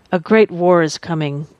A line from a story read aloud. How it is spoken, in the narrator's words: Priest Qian said